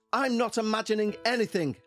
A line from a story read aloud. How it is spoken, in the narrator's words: yelled